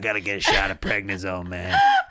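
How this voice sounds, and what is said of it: Imitates another person's voice. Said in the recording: “That is the most insane impression of his voice. It sounds like he's here.”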